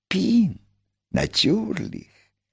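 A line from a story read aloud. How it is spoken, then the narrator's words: Whispered. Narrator (Russian): прошептал великий механик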